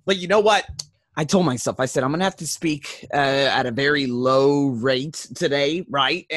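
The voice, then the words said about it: Hoarse, strained voice. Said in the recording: “my voice is jacked up because I did a little bit too much screaming yesterday”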